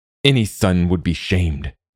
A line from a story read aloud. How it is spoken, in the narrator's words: Ingolfur spat